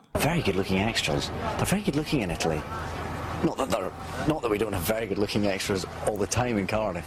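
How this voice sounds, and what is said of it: Scottish accent. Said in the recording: “The sexiest accent in the world is Scottish ... This is the owner of the sexiest accent in the world.”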